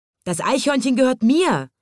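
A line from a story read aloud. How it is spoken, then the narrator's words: Angry crowd shouting. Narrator (German): schrien die Leute sich gegenseitig an und sie schüttelten die Fäuste und sahen zornig aus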